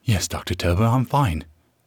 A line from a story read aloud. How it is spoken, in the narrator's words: Ruth hisses through clenched teeth, trembling with indignation